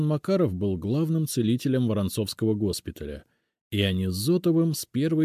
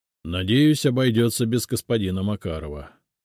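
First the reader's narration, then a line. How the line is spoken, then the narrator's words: Growled. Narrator (Russian): прорычал Зотов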